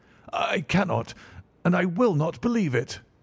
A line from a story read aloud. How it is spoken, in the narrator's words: cried the banker with an ashen face